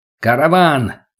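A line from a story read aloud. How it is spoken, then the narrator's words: Barked into microphone. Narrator (Russian): гаркнул Богдана в микрофон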